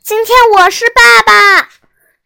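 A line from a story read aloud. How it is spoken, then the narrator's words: Shouting. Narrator (Chinese): 我大叫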